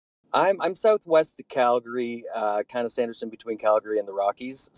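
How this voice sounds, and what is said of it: Strong regional accent. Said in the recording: “somebody with a stronger accent than me”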